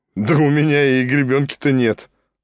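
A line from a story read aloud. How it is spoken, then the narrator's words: Laughing. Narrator (Russian): засмеялся Шатов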